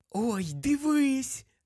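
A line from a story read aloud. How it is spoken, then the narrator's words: Joyful whisper. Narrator (Ukrainian): Радісно прошепотіла Луна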